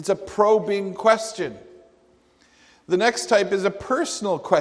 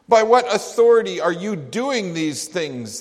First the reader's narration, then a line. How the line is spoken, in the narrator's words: they asked